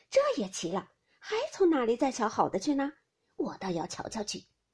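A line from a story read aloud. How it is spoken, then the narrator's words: Surprised, laughing. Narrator (Chinese): 袭人又是诧异，又笑道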